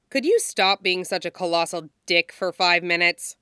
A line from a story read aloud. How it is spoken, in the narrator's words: Vanessa snaps at him